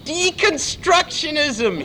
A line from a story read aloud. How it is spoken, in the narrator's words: He screamed again